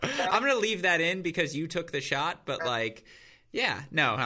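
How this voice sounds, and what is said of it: Usual voice. Nothing is said of it.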